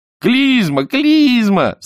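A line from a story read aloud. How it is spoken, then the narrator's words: Delighted shout. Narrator (Russian): закричал Чонкин в восторге от того, что ему вспомнилось бесовское слово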